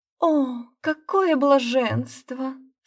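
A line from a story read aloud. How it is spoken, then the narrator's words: Moan. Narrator (Russian): стонала Моретти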